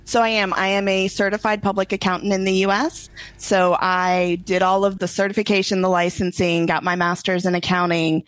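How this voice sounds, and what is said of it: Houston Texas accent. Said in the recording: “being in the Houston area, if you can't tell the accent yet”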